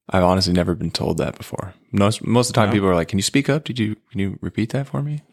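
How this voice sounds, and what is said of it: Smooth, soft-spoken radio-style voice. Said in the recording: “They like your NPR voice. ... It's very smooth. ... you're soft spoken.”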